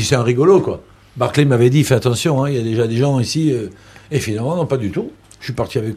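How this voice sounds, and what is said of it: Usual voice. Nothing is said of it.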